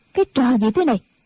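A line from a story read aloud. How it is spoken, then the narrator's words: Shout. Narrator (Vietnamese): Tĩnh Quyền quát lên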